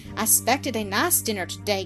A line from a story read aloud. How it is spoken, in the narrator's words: grumbled Harry